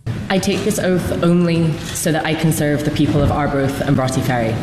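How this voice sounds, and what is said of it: Scottish accent. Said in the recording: “she sounded quite Scottish there ... notable Scottish accent.”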